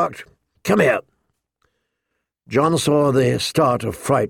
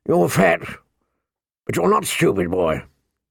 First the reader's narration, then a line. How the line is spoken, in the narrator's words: the old bear said gruffly